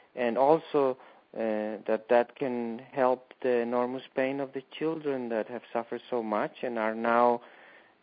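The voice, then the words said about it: Spanish-accented English, likely Colombian. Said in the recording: “we have this conversation in an Italian accent and a Colombian accent”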